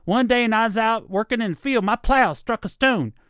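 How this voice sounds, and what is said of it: High-pitched Southern character voice. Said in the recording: “there's that voice that I started doing as well... I call him Clem... high Southern accent.”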